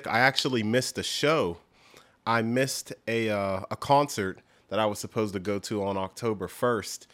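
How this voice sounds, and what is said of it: Slightly weird, under-the-weather voice. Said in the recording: “my voice sounds a little weird, it's because I'm still a little bit under the weather”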